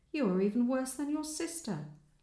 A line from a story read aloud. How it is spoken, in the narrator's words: he exclaimed